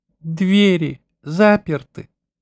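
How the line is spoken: Pleading question. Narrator (Russian): спросил он умоляющим голосом

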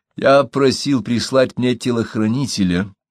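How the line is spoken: Dry. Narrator (Russian): сказал он сухо

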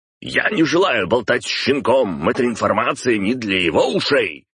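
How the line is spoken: Barking. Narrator (Russian): рявкнул Виноградов

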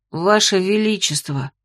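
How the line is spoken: Slightly hoarse, younger speaker. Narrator (Russian): хрипловато начал младший

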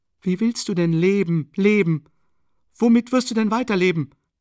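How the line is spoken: Crying out. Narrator (German): rief Sonja

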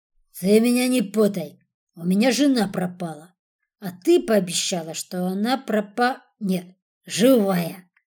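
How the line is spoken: Giggling, loud hiccup. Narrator (Russian): Он захихикал и громко икнул

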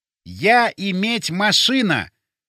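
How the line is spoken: Loud, deliberately separated words. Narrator (Russian): громко и раздельно проговорил я

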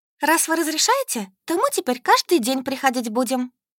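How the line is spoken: Joyful. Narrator (Russian): радостно заверила всех Солька

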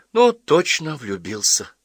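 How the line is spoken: Sigh. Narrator (Russian): вздохнула Ася

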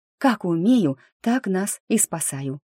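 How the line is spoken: Breathless. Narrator (Russian): выдохнула я

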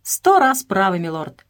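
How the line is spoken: Exclaimed. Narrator (Russian): воскликнул Эдуард

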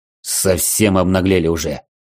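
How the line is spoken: Angry growl, bearded warrior. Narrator (Russian): зло рыкнул бородатый воин

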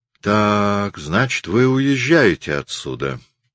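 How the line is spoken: Calm question. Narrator (Russian): спросила Бианка спокойно

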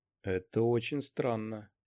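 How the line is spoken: Muttering. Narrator (Russian): пробормотал Куай-Гон

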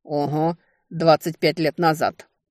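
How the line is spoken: Commanding, authoritative tone. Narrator (Russian): объявила она генеральским тоном

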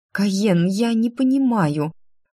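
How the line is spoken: Uncertain speech. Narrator (Russian): неуверенно заговорила я

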